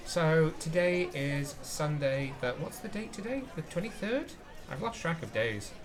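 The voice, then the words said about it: Tired, hoarse, fading voice. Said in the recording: “I am tired. I am losing my voice.”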